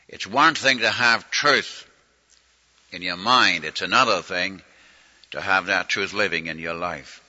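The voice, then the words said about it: Regional dialect, fast run-together speech. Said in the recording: “I go too fast ... I begin to talk my shorthand English ... I run my words together, and I get my dialect out here”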